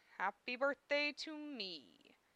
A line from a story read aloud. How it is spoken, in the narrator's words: I murmured to myself